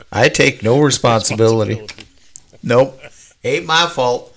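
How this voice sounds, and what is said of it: Imitates another person's voice. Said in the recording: “my best Trump impression”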